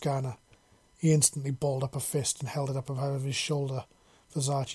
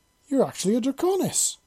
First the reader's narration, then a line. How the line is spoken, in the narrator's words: She exclaimed